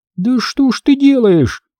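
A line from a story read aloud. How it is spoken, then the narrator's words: Shriek. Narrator (Russian): взвизгнула медсестра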